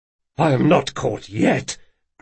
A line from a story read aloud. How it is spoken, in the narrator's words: growled the boy